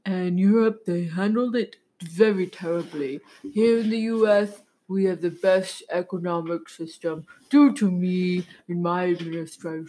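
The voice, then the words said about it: Imitates another person's voice. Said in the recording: “Can you do an impression of any of those men? Joe Biden, Donald Trump, Bernie Sanders.”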